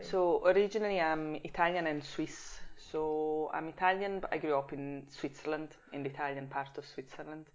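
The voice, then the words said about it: Swiss Italian accent, hints of Scottish. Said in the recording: “there's hints of Scottish in there ... my accent is probably Swiss Italian ... more of a closed accent ... I think my accent is more of a weird Italian, Scottish”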